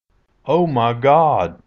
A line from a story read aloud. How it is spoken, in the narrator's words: I exclaimed